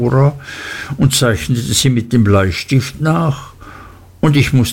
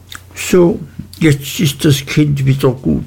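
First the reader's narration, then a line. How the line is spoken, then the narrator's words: Plain. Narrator (German): sagte Dora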